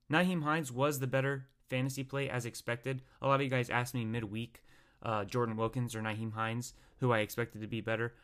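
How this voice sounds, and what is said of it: Strained, fading voice. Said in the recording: “my voice is starting to go a little bit”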